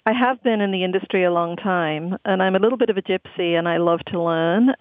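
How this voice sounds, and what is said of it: Non-local accent. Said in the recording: “you have a wonderful accent that's not from Cleveland”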